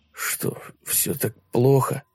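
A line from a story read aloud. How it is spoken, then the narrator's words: Mutter. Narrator (Russian): Пробормотал Люк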